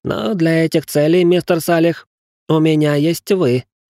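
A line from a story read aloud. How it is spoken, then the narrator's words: Tired sigh. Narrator (Russian): устало вздохнул Гринривер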